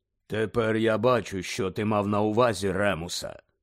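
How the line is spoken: Low unhurried voice. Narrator (Ukrainian): Низьким голосом неквапно сказав чарівник

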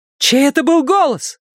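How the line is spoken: Shout. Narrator (Russian): крикнула Вера

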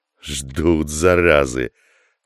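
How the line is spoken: Hiss through teeth. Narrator (Russian): прошипел сквозь зубы Асата

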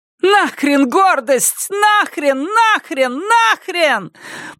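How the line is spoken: Shouting. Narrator (Russian): прокричала она

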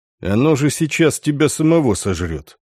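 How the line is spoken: Even voice. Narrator (Russian): ровным голосом заметил Дан

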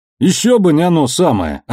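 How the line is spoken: Yelling. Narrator (Russian): орал Амос

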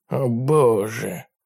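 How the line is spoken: Mumbled. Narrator (Russian): пробормотал Ларри

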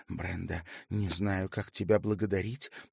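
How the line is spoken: Mumbled. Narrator (Russian): пробормотала Ханна

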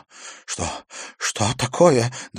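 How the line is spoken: Trembling voice. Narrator (Russian): дрожащим голосом спросил Иверсон

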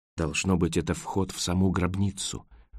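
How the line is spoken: Whisper. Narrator (Russian): прошептал Роэн

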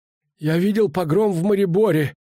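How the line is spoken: Breathless. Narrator (Russian): выдохнул он

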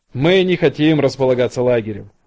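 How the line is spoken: Laughing. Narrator (Russian): рассмеялся лейтенант Литтл

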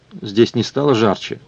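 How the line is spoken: Plain. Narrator (Russian): спросил он

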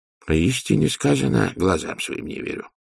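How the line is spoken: Mutter. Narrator (Russian): пробормотал Лю Цзэ

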